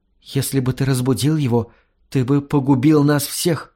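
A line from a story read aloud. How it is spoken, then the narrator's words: Trembling whisper. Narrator (Russian): прошептала она ему дрожащими губами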